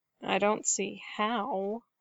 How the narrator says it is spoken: Leia muttered

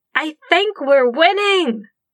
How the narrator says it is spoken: Jing Yi shouted

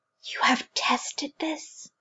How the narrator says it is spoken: She breathed

